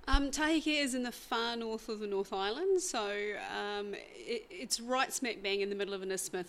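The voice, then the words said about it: New Zealand accent. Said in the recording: “there's a bit of a strange accent there. As I said, you're from a place called Taheke in New Zealand.”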